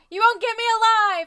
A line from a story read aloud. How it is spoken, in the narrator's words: I scream back